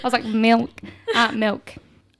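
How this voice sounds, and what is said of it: Put-on Scottish accent. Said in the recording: “Can you give us a little bit of your Scottish accent? ... I'm going to do it in the accent.”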